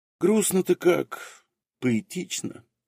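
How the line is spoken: Wistful sigh. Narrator (Russian): вздохнул невидимый Чах

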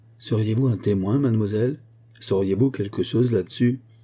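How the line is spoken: Suddenly beaming exclamation. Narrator (French): s'écria l'employé devenant tout à coup rayonnant

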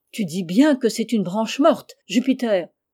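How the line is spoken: Shouted, trembling with emotion. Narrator (French): cria le grand d'une voix tremblante d'émotion

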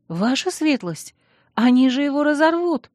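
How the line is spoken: Frightened pleading squeak. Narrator (Russian): Испуганно пискнула я, взывая к состраданию мужа

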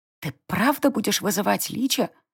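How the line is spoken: Loud whisper. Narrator (Russian): громким шепотом уточнила Сари

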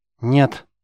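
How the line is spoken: Sharp, curt. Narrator (Russian): резко бросила Сафи

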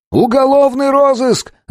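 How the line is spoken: Yelling while running. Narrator (Russian): заорал я, ускоряясь

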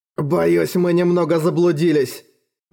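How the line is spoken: Trembling voice. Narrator (Russian): дрожащим голосом объяснил стражнику Джоат

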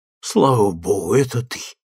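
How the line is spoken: Relieved exhale. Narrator (Russian): выдохнул Анри

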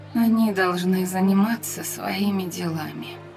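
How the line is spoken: Hoarse, drowsy objection. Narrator (Russian): возразила Андарна, и ее голос был хрипловат, словно она погружалась в сон

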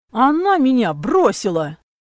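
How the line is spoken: Barked. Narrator (Russian): рявкнул брат

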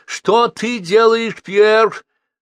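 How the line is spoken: Sharp cry. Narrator (Russian): вскрикнула она

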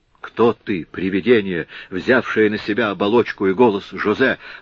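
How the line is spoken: Exclaiming. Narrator (Russian): воскликнул, наконец, Франциск

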